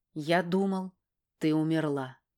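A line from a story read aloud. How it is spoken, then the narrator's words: Quiet. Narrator (Russian): говорит мне тихо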